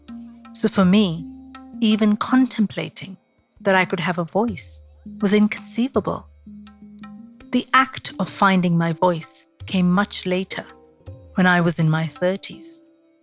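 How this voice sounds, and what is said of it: Indian mixed with East London accent. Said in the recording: “the Indianness in my voice ... A mix of Mumbai meets East London via Kerala”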